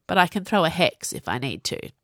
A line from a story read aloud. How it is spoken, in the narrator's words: Viola sighed